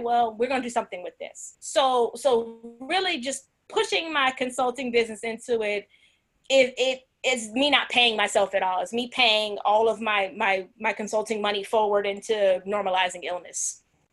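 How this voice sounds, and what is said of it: New Jersey accent. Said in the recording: “You said that you've been out of New Jersey for 19 years now, huh? ... I can't tell. I hear that accent all in it.”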